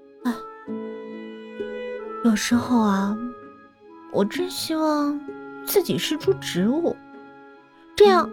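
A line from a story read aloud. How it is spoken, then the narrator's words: Sighing. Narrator (Chinese): 小雨叹息着说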